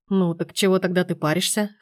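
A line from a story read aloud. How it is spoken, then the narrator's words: Mocking snort. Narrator (Russian): хмыкнул насмешливо Сергей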